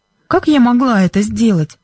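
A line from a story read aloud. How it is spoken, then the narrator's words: Innocent-sounding question. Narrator (Russian): невинным голосом спросила Бренда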